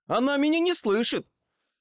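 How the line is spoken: Yelling back. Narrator (Russian): заорал в ответ

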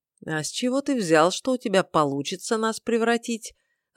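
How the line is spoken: Even voice. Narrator (Russian): ровным голосом поинтересовался Вангар

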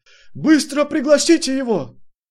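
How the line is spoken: Shouting in chorus. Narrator (Russian): Сразу несколько из них хором закричали

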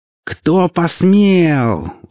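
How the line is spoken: Howling. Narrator (Russian): взвыла Биат

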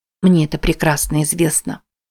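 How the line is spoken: Quiet reply. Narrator (Russian): тихо ответила Мэти

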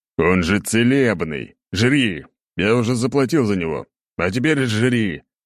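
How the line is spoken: Growling. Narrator (Russian): рычал на него

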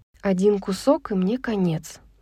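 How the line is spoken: Muttered. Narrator (Russian): пробормотала Брайс

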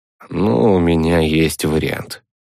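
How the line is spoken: Tired snort. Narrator (Russian): устало хмыкнул

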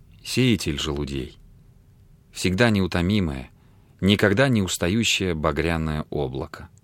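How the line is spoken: Very soft. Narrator (Russian): сказала очень мягко

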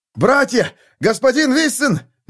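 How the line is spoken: Shouting. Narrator (Russian): закричал он

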